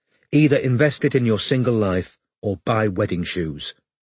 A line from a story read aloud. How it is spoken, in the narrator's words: said Linda sternly